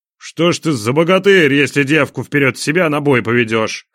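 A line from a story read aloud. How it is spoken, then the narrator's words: Prince snorting. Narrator (Russian): хмыкнул князь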